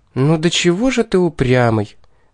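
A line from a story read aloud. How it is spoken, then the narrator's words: Sighing female demon. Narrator (Russian): вздохнула демоница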